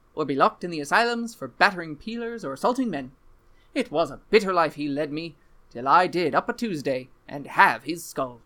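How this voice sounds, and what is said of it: Mediocre put-on accent. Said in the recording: “I wouldn't say your accent was great, but I wouldn't say it was terrible.”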